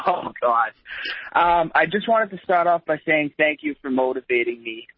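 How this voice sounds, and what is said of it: Boston accent. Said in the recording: “Boston, Massachusetts ... Thank you for having the accent I was hoping you would have.”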